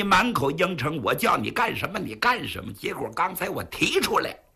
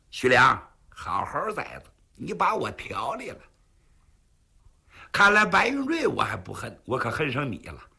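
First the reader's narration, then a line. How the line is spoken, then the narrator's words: Cold sneer. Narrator (Chinese): 龙云凤冷笑一声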